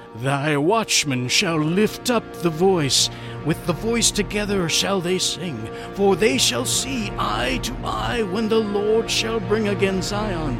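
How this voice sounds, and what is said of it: Dramatic reading voice. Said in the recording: “that was my dramatic voice.”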